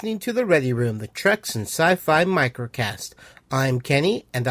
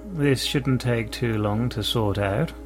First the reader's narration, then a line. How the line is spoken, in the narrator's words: Eric said in a cool voice